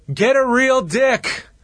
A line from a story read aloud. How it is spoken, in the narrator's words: yells out